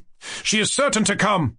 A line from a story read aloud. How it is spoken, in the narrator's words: I cried